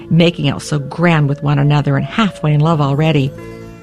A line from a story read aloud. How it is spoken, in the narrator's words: the cook snorted